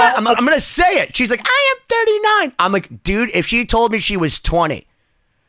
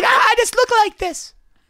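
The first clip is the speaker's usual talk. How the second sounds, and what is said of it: Gentle imitated woman's voice. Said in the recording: “a nice voice imitation of Mariko ... Her voice is very gentle”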